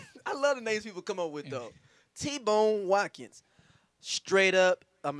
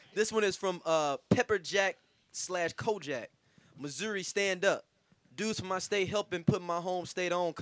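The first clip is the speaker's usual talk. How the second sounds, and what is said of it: Put-on St. Louis accent. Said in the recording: “I like the voice that you did. ... that nigga definitely from St. Louis ... That was original accent. ... That nigga's definitely from here.”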